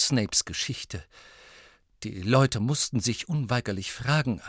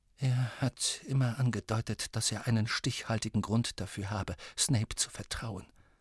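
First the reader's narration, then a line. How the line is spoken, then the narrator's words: Tearful murmur. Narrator (German): murmelte Professor McGonagall und tupfte sich die tränennassen Augenwinkel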